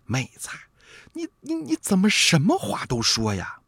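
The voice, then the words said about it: Quiet, hushed scolding voice. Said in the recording (Chinese): “小声的责备英宁”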